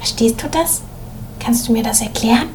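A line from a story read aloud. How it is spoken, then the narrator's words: Whisper. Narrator (German): seine Klassenkameradin Ina flüsterte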